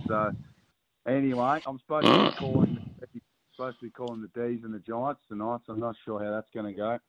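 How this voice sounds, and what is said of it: Hoarse, strained voice. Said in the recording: “Sorry about the voice. ... I'm a little under the weather ... I just got a bit of a sore throat and lost the voice.”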